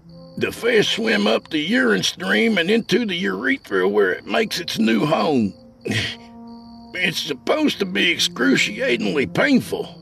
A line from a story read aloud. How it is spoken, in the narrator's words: I wheezed